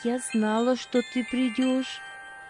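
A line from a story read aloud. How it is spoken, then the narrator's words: Tender speech. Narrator (Russian): ласково проговорила она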